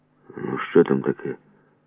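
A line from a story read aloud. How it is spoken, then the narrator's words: Quiet question. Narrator (Ukrainian): тихо спитав чувак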